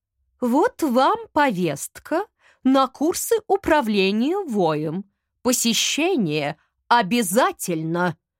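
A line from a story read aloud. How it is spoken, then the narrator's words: Stern. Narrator (Russian): строго сказала кошка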